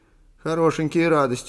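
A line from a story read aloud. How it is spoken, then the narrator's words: Mocking inner voice. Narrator (Russian): насмешливо возразил внутренний голос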